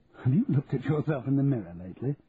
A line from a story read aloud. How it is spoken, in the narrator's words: asked, laughing